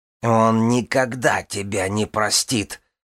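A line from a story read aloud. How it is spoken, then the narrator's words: Growling. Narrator (Russian): прорычала Вирга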